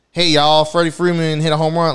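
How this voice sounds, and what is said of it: Put-on Southern American accent. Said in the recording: “a girl, I don't know, lady, woman, chick with a southern accent”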